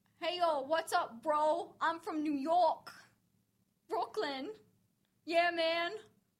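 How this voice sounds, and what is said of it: Put-on New York accent, sounds Jamaican. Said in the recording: “I can do a New York accent ... That was like Jamaican.”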